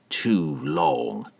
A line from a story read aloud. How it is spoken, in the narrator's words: Entreri muttered under his breath